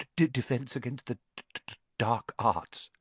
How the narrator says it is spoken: muttered Professor Quirrell, as though he'd rather not think about it

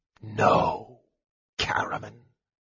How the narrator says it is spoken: Raistlin whispered, his thin lips parted in a grim smile

